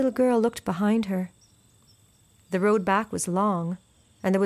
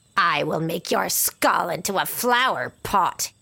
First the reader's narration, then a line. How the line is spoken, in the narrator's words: hissed